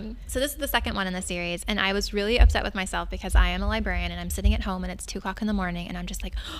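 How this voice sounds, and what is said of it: Usual voice. Nothing is said of it.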